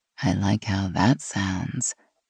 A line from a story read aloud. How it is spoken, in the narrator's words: Gina said in a low voice